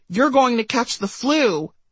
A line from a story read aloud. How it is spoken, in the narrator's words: I'd blurted